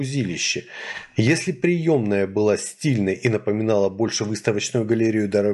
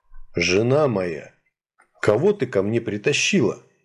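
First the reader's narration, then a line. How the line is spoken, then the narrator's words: Hoarse deep bass. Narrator (Russian): Голос его был хрипл и басовит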